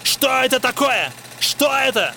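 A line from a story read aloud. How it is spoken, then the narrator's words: Dismayed yelling. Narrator (Russian): орал Лао Цзи, в уме подсчитывая страшные суммы убытка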